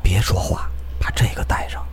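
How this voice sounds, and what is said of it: Whispered, quiet voice. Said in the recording (Chinese): “小声地说”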